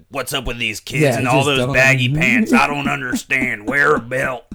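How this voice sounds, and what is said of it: Put-on Southern Bible Belt accent. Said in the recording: “I just made my parents sound like super Bible Belt accent”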